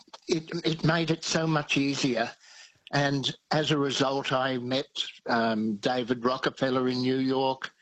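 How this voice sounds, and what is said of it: Australian accent. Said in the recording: “They loved the accent. It was a great benefit being Australian”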